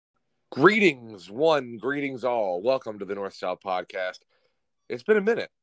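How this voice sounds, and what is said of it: Voice not fully back. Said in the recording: “my voice is not back yet ... I still don't fully have my voice.”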